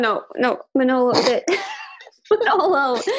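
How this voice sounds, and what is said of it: Usual voice. Nothing is said of it.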